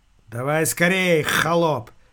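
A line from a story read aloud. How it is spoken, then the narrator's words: Sharp shout. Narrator (Russian): прикрикнул он на могильщика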